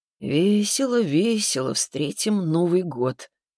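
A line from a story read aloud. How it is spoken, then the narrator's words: Sad singing. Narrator (Russian): печально пропел Виктор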